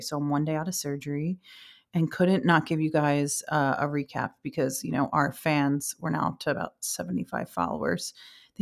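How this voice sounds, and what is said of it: Voice sounds off, post-surgery. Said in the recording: “I sound a little crazy. I can hear it in my voice already. I had to have surgery yesterday.”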